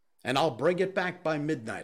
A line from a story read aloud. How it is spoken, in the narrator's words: said